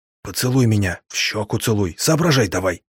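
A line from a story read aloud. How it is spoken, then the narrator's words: Whisper. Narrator (Russian): я прошептал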